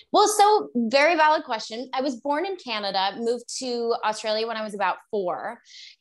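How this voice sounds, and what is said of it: North American accent. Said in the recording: “how come you don't have an accent? ... For me, I just never lost my Canadian or American sort of accent.”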